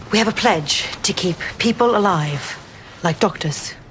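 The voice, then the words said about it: British accent. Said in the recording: “Elizabeth Moss, sporting a British accent, is Imogen.”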